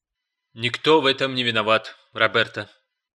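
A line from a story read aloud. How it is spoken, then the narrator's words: Soft reply. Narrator (Russian): мягко ответил Гарп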